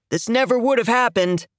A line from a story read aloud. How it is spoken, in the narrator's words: he shouts